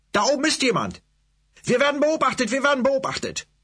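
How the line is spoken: Shouting. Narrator (German): schrie er seiner Gemeinde zu

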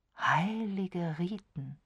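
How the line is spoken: Dreamy murmur. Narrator (German): murmelte Diana Ashley, und ihre Augen bekamen einen träumerischen, abwesenden Ausdruck

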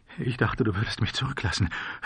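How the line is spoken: Boy sobbing. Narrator (German): schluchzte der Junge

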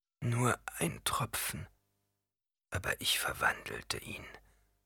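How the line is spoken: Murmur. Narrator (German): murmelte Paul

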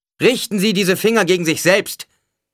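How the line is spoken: Called out. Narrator (German): rief Paul

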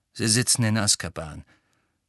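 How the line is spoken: Curt, brusque. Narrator (German): sagte Sirius schroff

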